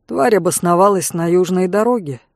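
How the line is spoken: Calm explanation. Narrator (Russian): так же спокойно пояснила

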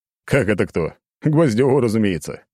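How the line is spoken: Short laugh. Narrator (Russian): хохотнул Медведев

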